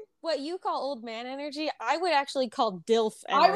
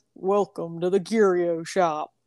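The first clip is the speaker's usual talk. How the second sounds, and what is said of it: Good impression of a character. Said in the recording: “That's actually a good impression.”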